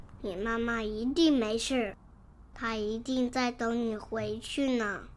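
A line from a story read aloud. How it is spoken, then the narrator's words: Gentle, soothing. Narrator (Chinese): 霸王龙温柔的说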